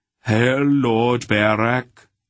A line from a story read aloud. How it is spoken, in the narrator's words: their leader intoned